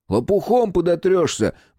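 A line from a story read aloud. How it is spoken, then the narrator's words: Angry shout after someone. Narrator (Russian): прокричал ему вдогонку рассерженный Коля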